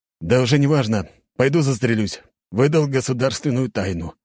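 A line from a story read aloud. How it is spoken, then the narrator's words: Doomed sigh. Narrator (Russian): обреченно выдохнул майор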